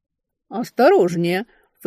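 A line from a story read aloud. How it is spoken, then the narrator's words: Snorting. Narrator (Russian): фыркнула она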